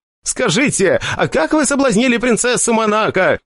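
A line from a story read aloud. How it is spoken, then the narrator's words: Shouting from back of crowd. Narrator (Russian): кричал один из тех, кто из-за отвратительных физических данных не мог пробиться в первые ряды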